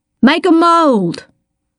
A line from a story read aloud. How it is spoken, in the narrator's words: Star shouted